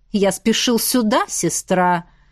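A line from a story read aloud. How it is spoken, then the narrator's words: Snorting. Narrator (Russian): хмыкнул он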